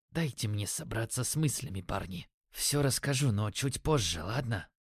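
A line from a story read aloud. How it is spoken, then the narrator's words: Strained, quiet. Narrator (Russian): выдавил тихим голосом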